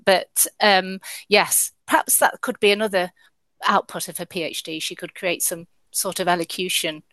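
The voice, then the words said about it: Midlands Nottingham English accent. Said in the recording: “my Midland Nottingham accent”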